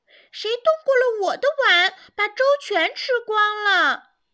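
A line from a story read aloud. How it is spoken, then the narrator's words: Terrible roaring voice. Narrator (Chinese): 熊爸爸……用可怕的声音哇哇叫着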